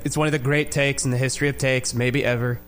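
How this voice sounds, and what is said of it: Good Donald Trump impression. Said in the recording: “You have a pretty good, like, I don't anoint people like good impersonations. You actually have a pretty good Trump.”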